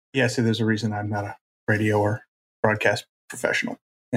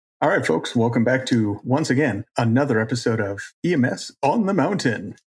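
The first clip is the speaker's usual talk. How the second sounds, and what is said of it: Exaggerated announcer voice. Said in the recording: “It's my announcer voice... It was horrible.”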